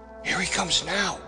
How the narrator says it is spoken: she whispered

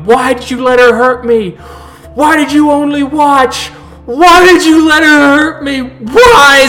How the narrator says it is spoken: screaming, screaming, going

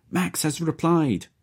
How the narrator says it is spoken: she shouts

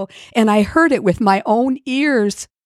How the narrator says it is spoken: cried Chicken Little

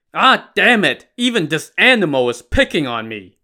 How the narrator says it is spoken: the chieftain cried

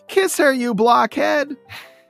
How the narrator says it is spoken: Sally says, as she yells out the window

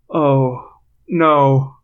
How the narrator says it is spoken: Rachel moaned

